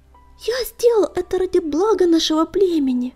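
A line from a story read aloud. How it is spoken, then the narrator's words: Pleading. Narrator (Russian): взмолился он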